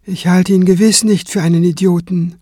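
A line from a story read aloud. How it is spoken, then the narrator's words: Calm reply. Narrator (German): erwiderte Kranz ruhig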